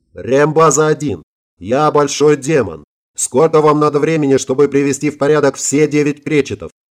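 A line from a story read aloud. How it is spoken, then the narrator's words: Yelled. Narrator (Russian): заорал я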